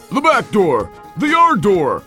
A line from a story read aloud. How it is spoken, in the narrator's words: exclaimed the barman